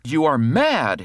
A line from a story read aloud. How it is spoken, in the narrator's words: he cried aghast